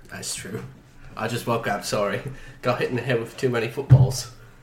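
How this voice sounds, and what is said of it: English accent. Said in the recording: “this stupid, dumb accent that you have”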